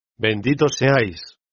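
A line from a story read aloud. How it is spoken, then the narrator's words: Young woman exclaiming. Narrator (Spanish): la joven exclamó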